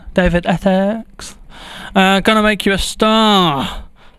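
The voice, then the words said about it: Put-on Essex accent. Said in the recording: “I feel like I should put his name in an Essex accent.”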